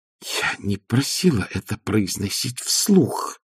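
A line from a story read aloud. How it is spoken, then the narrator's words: Hissed. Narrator (Russian): прошипела Маград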